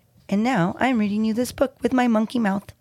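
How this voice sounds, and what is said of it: Silly monkey character voice. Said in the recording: “In my monkey voice.”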